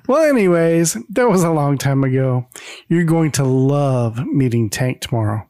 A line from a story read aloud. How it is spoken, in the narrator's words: Carol, loving all this attention, just chuckles and says